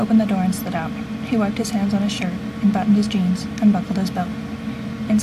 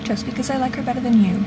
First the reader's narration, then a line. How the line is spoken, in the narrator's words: Dean said